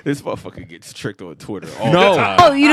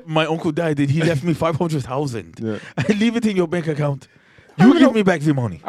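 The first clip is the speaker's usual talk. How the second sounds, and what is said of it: Mock Nigerian accent sounding French. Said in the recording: “I don't even know what accent that is ... Is my Nigerian prince ... it's some kind of French ... Now it is just full French ... That's Frigerian.”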